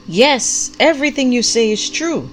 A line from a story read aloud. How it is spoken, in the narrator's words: the prophet called out with equal vigor